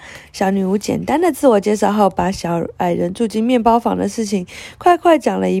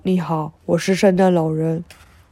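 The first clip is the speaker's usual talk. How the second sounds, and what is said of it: Deep low Santa Claus voice. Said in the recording (Chinese): “用低沉的声音说”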